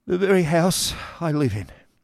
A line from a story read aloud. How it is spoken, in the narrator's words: sighed the poor gentleman